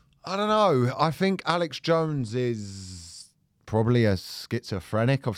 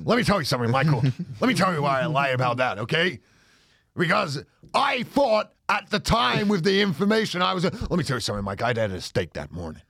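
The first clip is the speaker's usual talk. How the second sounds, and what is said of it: Imitates another person's voice. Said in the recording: “You wouldn't have Alex Jones on here. ... That's a really good impression. ... pretty good.”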